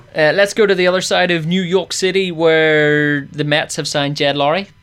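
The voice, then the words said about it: Put-on New York accent. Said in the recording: “Very good accent, by the way. ... I'm practicing. I'm hopefully going to New York in December”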